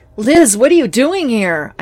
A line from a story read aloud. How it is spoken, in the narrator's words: I yelled